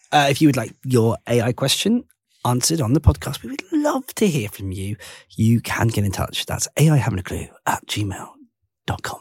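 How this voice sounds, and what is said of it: Polished radio presenter voice. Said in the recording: “That was a good radio voice”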